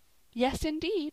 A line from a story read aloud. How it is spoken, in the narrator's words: cried Polly again